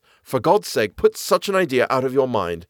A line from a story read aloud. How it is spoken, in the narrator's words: said he